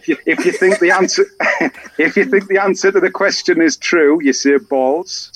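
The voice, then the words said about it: Accent that merges similar vowel sounds. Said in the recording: “They both sound the same with your accent ... you just sound like a sensei.”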